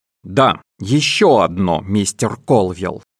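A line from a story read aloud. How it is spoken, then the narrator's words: Angry. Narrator (Russian): сердито сказала Джин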